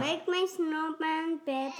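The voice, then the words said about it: Child yelling from the background. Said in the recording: “You keep yelling in the back”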